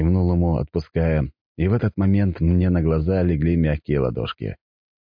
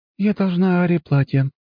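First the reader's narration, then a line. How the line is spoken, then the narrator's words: Untroubled sigh. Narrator (Russian): вздохнула принцесса, но в ее глазах не было ни тени расстройства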